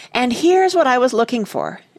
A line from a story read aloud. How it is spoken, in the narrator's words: exclaimed Joe